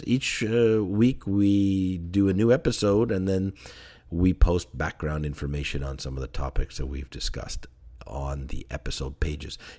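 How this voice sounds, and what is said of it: Slightly hoarse, strained voice. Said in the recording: “I'm losing my voice here a bit”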